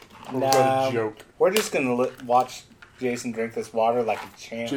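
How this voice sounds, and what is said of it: Usual voice. Nothing is said of it.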